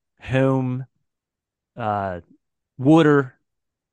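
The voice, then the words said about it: Put-on Philadelphia accent. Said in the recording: “Is there a Philly accent ... people from Delco probably have like a, how would I do it?”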